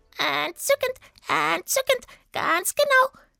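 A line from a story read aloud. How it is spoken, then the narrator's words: Smooth croak. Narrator (German): krächzte Sweetie glatt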